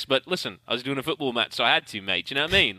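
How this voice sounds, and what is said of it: Put-on British accent. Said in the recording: “That's a great accent.”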